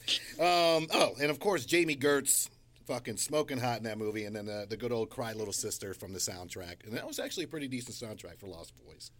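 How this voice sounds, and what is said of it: Breathless, running out of breath. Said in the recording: “I was running out of breath there.”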